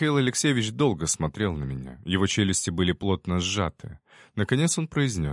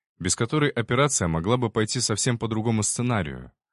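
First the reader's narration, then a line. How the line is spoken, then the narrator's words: Calm reply. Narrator (Russian): ответил я спокойно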